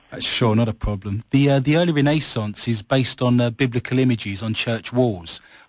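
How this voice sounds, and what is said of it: Noticeable non-local accent. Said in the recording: “my accent's probably throwing you a bit”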